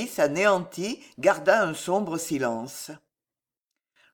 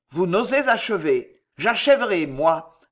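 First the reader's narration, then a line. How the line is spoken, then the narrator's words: Growling. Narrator (French): gronda Panigarola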